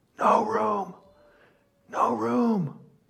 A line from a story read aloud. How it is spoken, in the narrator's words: she whispers